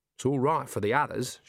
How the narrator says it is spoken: she said

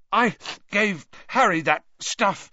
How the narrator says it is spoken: he choked

